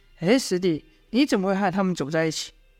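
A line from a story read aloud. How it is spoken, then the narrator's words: Plain. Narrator (Chinese): 童风说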